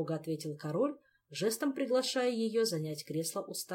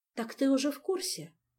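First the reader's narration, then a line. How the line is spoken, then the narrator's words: Sighing. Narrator (Russian): вздохнула королева Галанта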